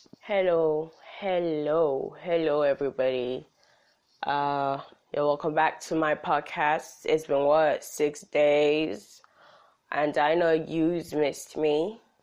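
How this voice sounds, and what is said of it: Voice sounds off from a cold. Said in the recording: “my voice is kind of off. I have a cold”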